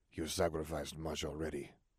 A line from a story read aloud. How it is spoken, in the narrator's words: Salazar murmured